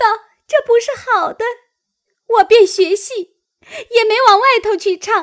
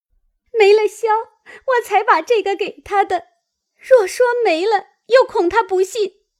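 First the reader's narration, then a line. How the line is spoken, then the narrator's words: Crying while speaking. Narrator (Chinese): 一行哭，一行说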